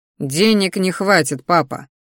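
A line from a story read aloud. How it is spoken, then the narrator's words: Snort again. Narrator (Russian): вновь хмыкнул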